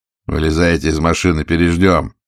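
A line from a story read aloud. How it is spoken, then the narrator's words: Loud but calm. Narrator (Russian): сказал он громко, но спокойно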